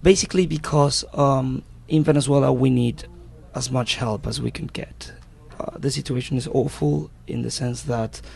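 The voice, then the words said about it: Slight Venezuelan-British accent. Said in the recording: “he has a bit of a Venezuelan/British accent, which is kind of rare”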